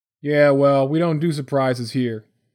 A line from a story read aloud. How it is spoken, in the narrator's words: the officer barked